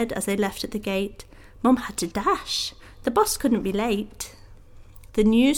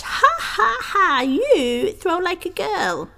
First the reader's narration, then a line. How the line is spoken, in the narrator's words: a boy named Sebastian, who was ever so tall, laughed